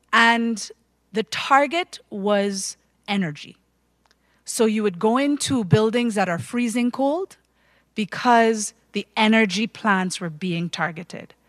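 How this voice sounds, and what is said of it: Caribbean accent. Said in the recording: “my Caribbean accent, yes”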